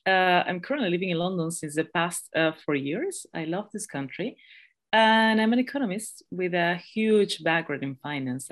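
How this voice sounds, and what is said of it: Thick Peruvian Spanish accent. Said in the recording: “I'm sorry for my accent if it's too thick. I'm from Peru, that's why. So my mother tongue is Spanish.”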